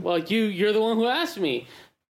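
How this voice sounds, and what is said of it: Yelling, loud and distorted. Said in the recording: “Why are you yelling at me? Damn, distortion.”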